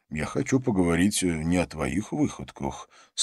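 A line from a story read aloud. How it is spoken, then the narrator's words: Calm reply. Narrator (Russian): спокойно ответил Джонатан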